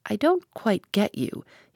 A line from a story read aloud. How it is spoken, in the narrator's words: he said gently